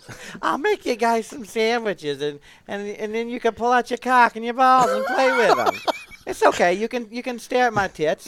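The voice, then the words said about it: Adam Sandler's grandma character voice. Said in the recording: “the Adam Sandler grandma voice”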